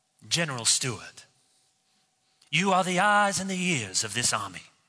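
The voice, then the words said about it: Deliberately bad put-on Southern accent. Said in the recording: “I could try to do the Southern accent because Martin Sheen's Southern accent is really bad ... I told you it was bad.”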